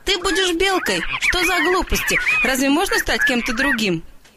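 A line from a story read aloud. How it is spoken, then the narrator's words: Laughing. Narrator (Russian): Мама тоже засмеялась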